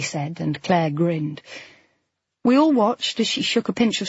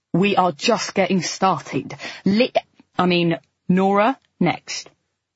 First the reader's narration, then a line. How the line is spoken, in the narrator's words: Nina said sternly